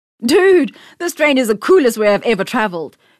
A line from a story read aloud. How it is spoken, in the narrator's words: exclaimed, excited at the sudden speed as the train set off